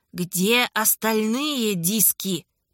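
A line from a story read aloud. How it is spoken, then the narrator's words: Hiss. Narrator (Russian): прошипел он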